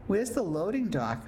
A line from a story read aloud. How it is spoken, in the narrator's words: Maisie asked